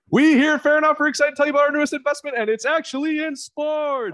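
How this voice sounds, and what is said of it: Announcer voice. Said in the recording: “I'm going to do it with an announcer voice.”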